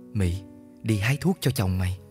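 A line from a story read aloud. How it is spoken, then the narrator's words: Soft whisper. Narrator (Vietnamese): Chị dâu khẽ nói vào tai Mị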